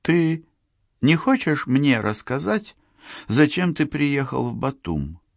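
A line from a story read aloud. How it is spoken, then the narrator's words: Calm question. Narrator (Russian): спокойно спросила Лиза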